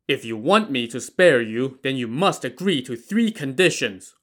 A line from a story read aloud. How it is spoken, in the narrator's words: Wu Song shouted